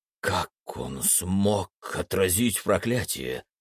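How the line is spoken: Sepulchral voice question. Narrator (Russian): загробным голосом поинтересовался Сет

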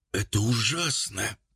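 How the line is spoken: Hoarse wheeze. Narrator (Russian): прохрипел

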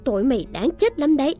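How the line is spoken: Loud shout. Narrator (Vietnamese): Cô dâu hét lớn

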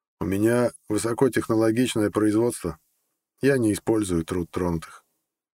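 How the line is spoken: Dry. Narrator (Russian): сухо произнес

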